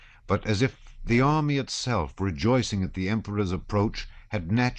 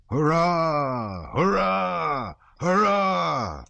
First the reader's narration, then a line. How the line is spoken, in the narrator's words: thundered from all sides, one regiment after another